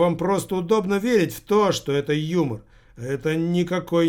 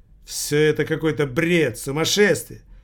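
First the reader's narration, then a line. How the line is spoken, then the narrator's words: Angry, irritated. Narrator (Russian): Зло и раздраженно проговорил внук старухи Юнниковой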